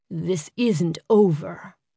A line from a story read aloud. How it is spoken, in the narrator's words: growled